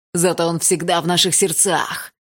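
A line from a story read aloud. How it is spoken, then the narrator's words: Shouted out. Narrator (Russian): выкрикнул его второй дружок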